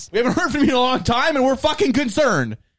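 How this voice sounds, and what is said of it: Yelling loudly. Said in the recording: “calm down and stop yelling”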